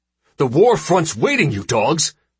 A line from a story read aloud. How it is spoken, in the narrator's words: he'd snapped, without provocation